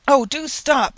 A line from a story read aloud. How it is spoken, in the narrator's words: exclaimed an old woman